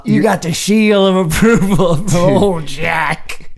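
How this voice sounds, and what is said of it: Poor generic 1940s Hollywood-man impression. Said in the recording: “your Jack Nicholson impression is actual garbage... my Jack Nicholson impression is generic Hollywood man from 1947... I do bad Jack Nicholson impressions”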